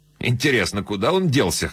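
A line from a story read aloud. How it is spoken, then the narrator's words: Snorting. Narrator (Russian): хмыкнул Коллер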